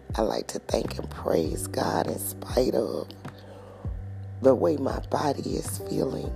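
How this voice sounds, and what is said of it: Sick, strained voice. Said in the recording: “my voice is just, oh my God, in need of miraculous deliverance and healing ... the way my throat is achy”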